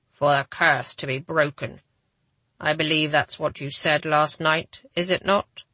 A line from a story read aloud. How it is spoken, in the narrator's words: struggling to keep my voice calm